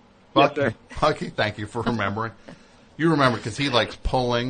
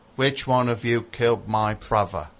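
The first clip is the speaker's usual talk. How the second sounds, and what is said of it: British accent, Michael Caine impression. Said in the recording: “Look, I'll do my British accent ... It's Michael Caine, right?”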